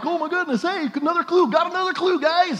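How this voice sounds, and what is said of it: Imitates other people's voices. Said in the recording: “my best impression of the staff”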